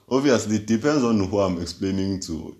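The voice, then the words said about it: Deep voice. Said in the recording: “is a deep voice... these deep voice”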